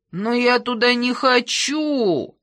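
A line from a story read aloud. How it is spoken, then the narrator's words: Moaned. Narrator (Russian): застонал Гердер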